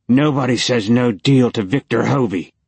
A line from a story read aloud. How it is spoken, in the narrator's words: the guy snarled